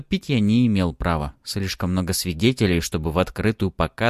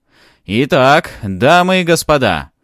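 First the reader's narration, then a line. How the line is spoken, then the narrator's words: Jubilant voice. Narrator (Russian): продолжил он все тем же ликующим голосом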